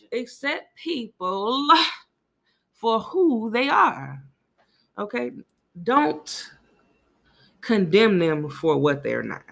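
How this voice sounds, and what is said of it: Preacher-style sermon voice. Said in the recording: “Let me get my preacher voice on, y'all.”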